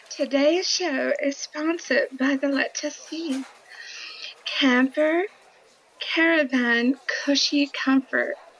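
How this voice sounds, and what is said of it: Attempted English accent, sounding Welsh. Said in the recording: “Do your English accent ... that wasn't English, but it was close ... It was Welsh.”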